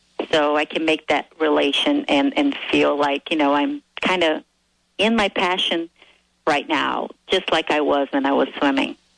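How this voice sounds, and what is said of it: Noticeable foreign accent. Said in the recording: “I can hear the accent.”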